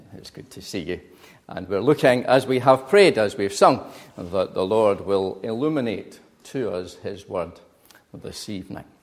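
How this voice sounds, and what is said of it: Glaswegian Scottish accent. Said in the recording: “you'll tell immediately from my accent that I am not from Eastbourne originally ... you already are used to a Glaswegian accent”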